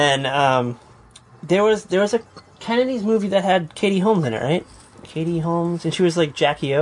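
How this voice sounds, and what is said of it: Usual voice. Nothing is said of it.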